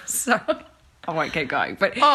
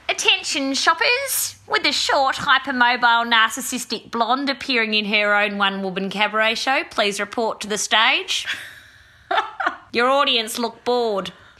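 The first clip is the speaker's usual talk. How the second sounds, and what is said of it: Performs a character's voice. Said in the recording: “She had her own voice. ... You gave her a voice.”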